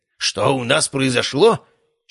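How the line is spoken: Nearly shouting. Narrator (Russian): чуть ли не крикнул Герасимов

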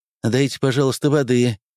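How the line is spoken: Trembling plea. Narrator (Russian): попросила она дрожащим голосом

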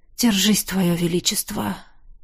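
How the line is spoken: Sighing. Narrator (Russian): вздохнул

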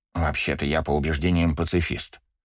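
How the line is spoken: Contented grumble. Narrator (Russian): проворчал, но ворчание его было довольным

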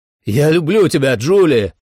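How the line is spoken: Shouted. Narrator (Russian): крикнул

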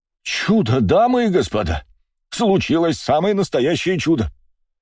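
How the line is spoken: Man exclaiming from crowd. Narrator (Russian): воскликнул мужчина, стоящий в толпе

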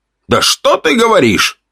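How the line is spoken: Sarcastic shout, man. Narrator (Russian): с сарказмом выкрикнул мужчина

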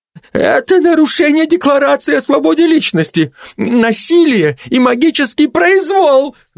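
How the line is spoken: Yelling. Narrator (Russian): завопил

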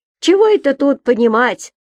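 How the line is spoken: Near shouting in ear. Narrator (Russian): почти кричала ей на ухо другая

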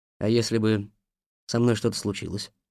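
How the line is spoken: Plain. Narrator (Russian): спросил я

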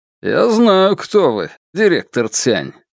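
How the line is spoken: Mocking tone. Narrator (Russian): насмешливо произнес Янь

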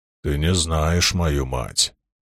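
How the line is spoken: Deep drum-like muttering. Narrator (Russian): пробормотал Лоэл, словно глухо пророкотал барабан

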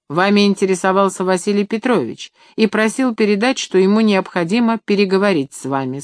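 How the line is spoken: Plain. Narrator (Russian): сказал он

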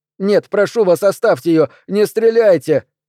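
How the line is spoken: Shouting. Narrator (Russian): закричал

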